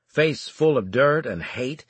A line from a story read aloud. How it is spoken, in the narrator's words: he snarled at me